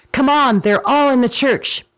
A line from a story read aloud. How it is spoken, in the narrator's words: he flew swiftly to his soldiers and cried